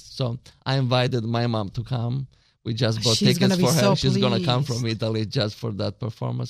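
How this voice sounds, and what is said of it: Italian accent. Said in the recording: “I love your accent. That's so lovely.”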